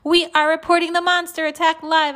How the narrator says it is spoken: shouted into the mic

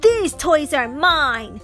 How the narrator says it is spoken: yelled the first

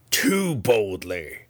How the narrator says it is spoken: she growled

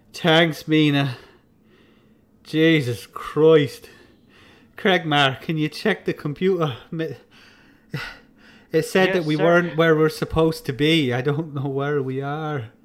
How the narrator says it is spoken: Sigh out and his head will go in his hand and he says

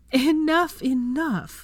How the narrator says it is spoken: Hermione wheezed between gasps of laughter

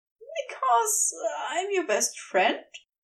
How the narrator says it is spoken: He said instead, with a light-hearted laugh

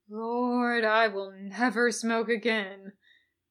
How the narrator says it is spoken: he moaned

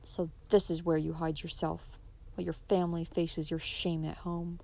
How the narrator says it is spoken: began Adam coldly

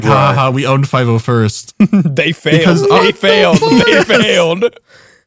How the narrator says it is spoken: we all started laughing because they're like

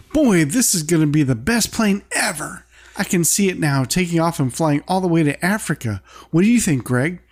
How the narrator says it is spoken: Bobby, being excited, exclaims

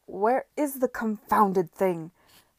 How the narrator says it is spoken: he shouted, frustration overpowering him

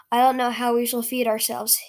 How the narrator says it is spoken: he sighed

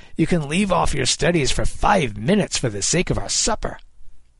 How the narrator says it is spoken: Kid snapped

